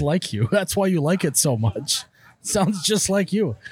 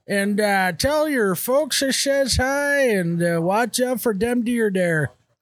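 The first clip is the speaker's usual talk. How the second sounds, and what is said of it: Grizzly folksy character accent. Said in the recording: “I actually like that accent a lot. Is that a character? ... Even more, less smiley, more grizzly.”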